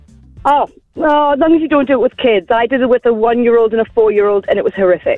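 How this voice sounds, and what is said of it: English accent, northeast England. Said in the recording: “you've got an English accent ... I'm from near Newcastle”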